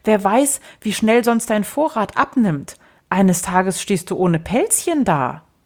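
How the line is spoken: Little one calling out. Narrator (German): rief der Kleine

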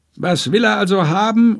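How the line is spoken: Merchant calling out. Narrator (German): ruft der Händler

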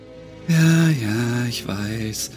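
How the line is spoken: Murmur. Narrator (German): murmelte Ashlyn

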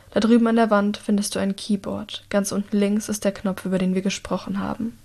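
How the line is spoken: Quiet. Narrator (German): sagt Herrick leise

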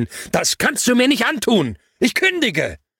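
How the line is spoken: Yelled into phone. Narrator (German): ins Telefon zu brüllen

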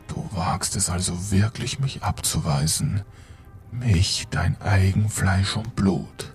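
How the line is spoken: Deep cutting growl. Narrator (German): Die Stimme war jetzt ein tiefes Knurren, das durch die Nacht schnitt

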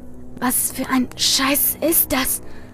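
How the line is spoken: Hoarse whisper. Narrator (German): flüsterte Andi mit heiserer Stimme

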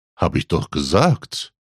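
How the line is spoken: Quiet reply. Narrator (German): gab Jonas leise zurück

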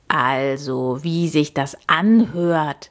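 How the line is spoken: Croaking. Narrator (German): krächzte

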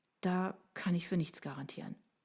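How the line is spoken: Sighing. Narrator (German): seufzte sie

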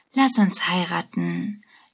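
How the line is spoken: Slurred drunkenly. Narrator (German): lallt sie

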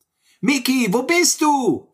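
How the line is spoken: Called out. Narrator (German): rief Sammy

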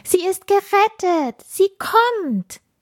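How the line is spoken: Excited children calling. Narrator (German): Die ersten Sternenkinder und Schneeflocken konnten Funkieler am Horizont erkennen und riefen aufgeregt

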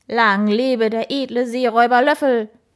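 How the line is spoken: Enthusiastic barking shout. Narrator (German): bellte er begeistert

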